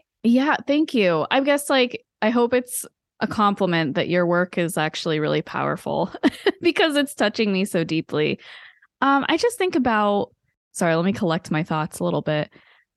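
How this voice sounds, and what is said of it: Emotional, tearful voice. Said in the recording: “you're getting a little emotional again ... I'm so weepy today”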